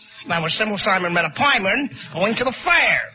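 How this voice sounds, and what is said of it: Donald Duck voice. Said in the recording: “Donald Duck impersonating”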